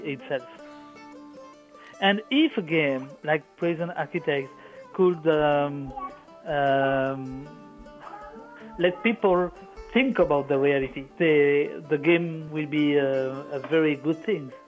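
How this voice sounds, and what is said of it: Foreign accent, sick-sounding voice. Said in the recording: “I'm sick and I'm very sorry for my accent.”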